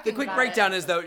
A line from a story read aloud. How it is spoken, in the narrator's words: she laughed because she finds all penises hilarious